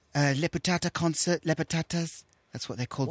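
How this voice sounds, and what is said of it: Questionable put-on accent. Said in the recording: “I think this accent's questionable.”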